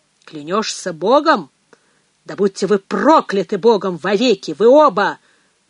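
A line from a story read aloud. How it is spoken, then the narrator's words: Thundering anger. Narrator (Russian): прогремел отец Ральф, единственный, в ком теперь кипел гнев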